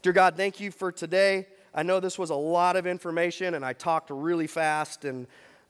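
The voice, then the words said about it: Hoarse, nearly lost voice. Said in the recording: “my voice is almost gone”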